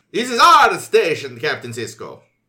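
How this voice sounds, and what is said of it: Bad put-on Italian accent. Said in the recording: “That was a bad Italian accent.”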